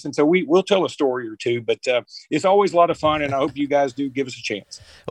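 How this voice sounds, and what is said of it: Alabama accent. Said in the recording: “your accent adds to your credibility on all things Crimson Tide”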